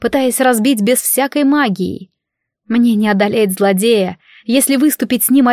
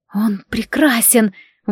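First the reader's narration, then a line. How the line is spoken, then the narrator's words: Breathless admiration. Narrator (Russian): выдохнула я, не в силах сдержать восхищение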